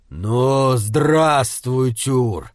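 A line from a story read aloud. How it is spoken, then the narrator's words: Annoyed grumble. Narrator (Russian): проворчал Хюмер, не скрывая досады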